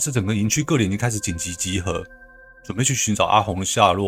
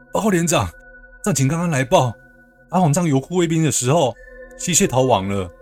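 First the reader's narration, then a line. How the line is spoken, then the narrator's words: Breathless report. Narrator (Chinese): 安全士官 气喘吁吁的说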